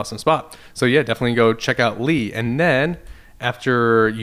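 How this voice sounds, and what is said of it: Usual voice. Nothing is said of it.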